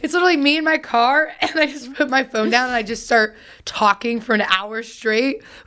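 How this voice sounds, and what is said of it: Raspy, worn-out voice. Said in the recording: “my voice is wrecked... raspy voice”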